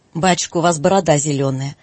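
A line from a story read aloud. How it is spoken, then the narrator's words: Surprised, then laughing. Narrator (Russian): проговорила вдруг Катя с удивлением и засмеялась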